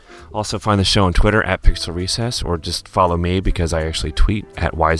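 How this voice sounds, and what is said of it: Usual voice. Nothing is said of it.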